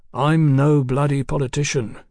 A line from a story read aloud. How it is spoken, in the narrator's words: Fraser remarked, in his same mild tone